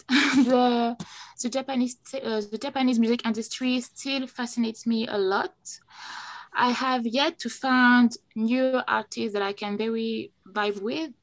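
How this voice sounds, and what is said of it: French-accented English. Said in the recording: “my very bad French accents”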